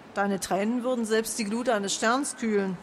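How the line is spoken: Plain. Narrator (German): sagte Ranon

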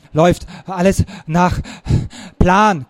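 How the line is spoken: Panting. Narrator (German): keuchte ich

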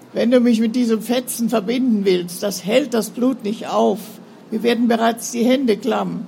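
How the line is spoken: Servant groaning. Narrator (German): stöhnte der Knecht

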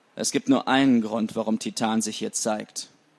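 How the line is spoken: Plain. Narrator (German): sagte er

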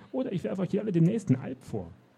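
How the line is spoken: Called out. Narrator (German): rief der Traumeister

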